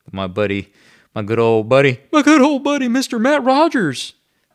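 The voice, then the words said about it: Imitates another person's voice. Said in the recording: “That's my Kent Brown impersonation.”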